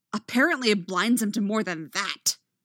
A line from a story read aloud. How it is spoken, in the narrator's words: Anakin snaps